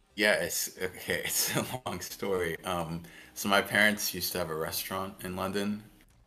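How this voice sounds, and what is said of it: Americanized English accent. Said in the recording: “you've got a very like Americanized accent”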